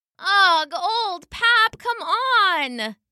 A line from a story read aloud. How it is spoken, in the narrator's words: whined the sheep